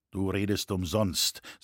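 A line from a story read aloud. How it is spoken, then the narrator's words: Said coldly. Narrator (German): sagte er kalt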